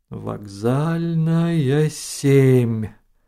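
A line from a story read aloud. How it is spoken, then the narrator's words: Drawl. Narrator (Russian): протянул Ноэль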